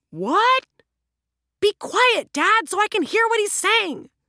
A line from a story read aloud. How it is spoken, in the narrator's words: the younger officer shouted at the older police officer down in the street